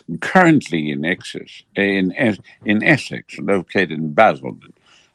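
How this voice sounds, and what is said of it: Imitated British accent. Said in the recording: “I always love the British accent”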